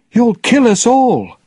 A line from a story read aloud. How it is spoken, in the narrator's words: she cried